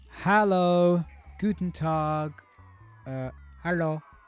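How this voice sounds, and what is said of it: Put-on accent imitating another person. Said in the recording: “I just changed the accent to what I think my uncle sounds like these days”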